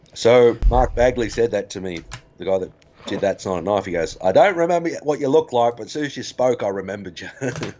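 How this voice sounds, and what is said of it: Australian accent. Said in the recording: “when I opened my mouth, they instantly remembered. As soon as I spoke, they heard the accent... Aussie”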